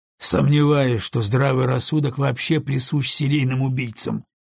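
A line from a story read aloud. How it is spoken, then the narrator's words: Skeptical snort. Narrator (Russian): хмыкнул Гарднер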